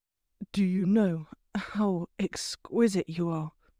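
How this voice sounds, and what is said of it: Low, detached drawl. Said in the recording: “his voice low, almost a detached drawl”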